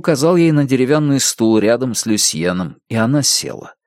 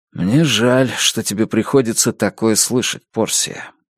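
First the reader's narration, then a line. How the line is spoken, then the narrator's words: Surprised mumble. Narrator (Russian): пробормотал Джейк, не ожидавший подобного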